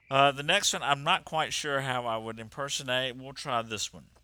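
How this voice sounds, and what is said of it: Usual voice. Nothing is said of it.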